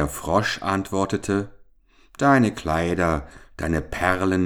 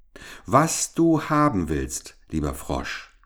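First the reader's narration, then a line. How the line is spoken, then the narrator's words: Plain. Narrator (German): sagte sie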